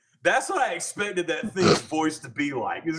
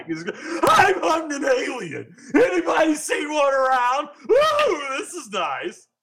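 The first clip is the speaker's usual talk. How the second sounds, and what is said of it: Cartoon clown character voice. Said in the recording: “There's a particular cartoon voice of he's usually plays a clown ... the old claymation, the puppet Rudolph”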